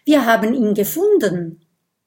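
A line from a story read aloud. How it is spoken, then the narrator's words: Call. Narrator (German): ruft Kokosnuss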